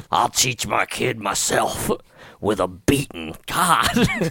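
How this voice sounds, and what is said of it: Imitating an anti-tax character voice. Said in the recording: “I'm just imitating people that don't understand what taxes do”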